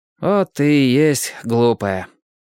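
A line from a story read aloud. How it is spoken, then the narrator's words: Sighing. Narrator (Russian): вздохнул Лесь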